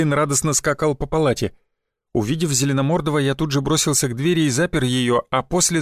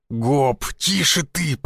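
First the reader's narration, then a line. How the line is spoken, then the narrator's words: Hiss. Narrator (Russian): прошипел я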